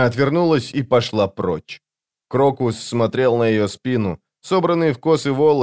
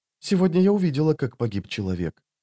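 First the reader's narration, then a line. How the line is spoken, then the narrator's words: Quiet speech. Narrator (Russian): тихо проговорила Ваза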